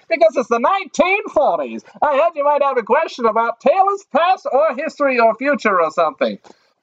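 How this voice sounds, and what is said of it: Old-time newsreel announcer voice. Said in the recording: “why do you talk like a newsreel guy?”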